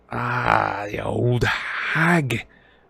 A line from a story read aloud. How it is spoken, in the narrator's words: Ron said in a revolted whisper